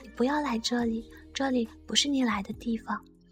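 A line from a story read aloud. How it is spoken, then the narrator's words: Low voice. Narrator (Chinese): 他……低声对我说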